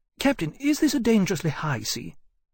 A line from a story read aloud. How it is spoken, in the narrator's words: Hammond had eventually said to him, quite desperately